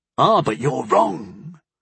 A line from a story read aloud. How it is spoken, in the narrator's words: Toffer hissed